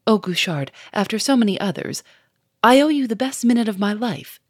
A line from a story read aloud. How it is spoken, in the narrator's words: cried Lupin